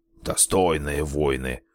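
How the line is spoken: Scornful snort. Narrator (Russian): фыркнул Ота

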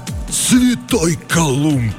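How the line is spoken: Astonished breathless exclamation. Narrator (Russian): выдохнул стилет

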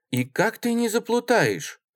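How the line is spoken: Exclaiming. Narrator (Russian): воскликнула Мария Петровна

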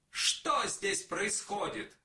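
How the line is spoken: Shouted. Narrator (Russian): и закричал

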